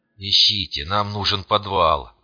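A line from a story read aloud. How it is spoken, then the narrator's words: Hoarse, breathless rasp. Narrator (Russian): прохрипел я, с трудом выдыхая стремительно густеющий воздух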